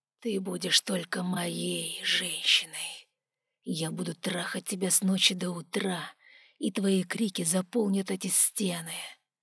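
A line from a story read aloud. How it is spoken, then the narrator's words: Low growl. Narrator (Russian): он низко зарычал, приближаясь к финалу, я услышала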